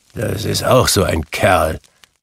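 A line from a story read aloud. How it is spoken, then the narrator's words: Grumbling. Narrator (German): brummte Scrooge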